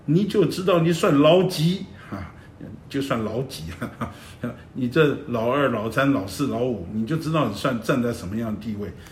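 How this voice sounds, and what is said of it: Shandong dialect imitation. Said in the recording (Chinese): “用山东话。”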